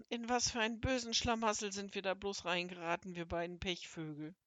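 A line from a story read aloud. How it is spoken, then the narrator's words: Sighing. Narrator (German): seufzte Seppel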